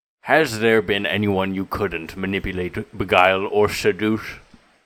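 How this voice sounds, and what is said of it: Put-on accent, decent but slipping. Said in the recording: “Your accent, not bad. Your accent did drop out as I could see you thinking about what the next lines were”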